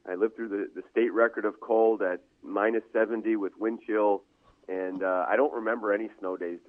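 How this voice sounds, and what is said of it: Northern US accent. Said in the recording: “my accent might be from the north”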